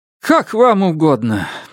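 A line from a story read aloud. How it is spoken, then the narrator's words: Meek resigned sigh. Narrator (Russian): безропотно вздохнула Джезебел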